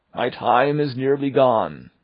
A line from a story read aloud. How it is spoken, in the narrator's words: cried the ghost